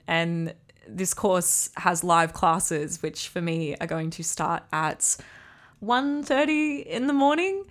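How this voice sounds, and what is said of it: Australian accent. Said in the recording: “I'm in Australia, if you can't tell from my accent.”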